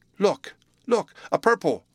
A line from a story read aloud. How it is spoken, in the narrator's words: the boy cried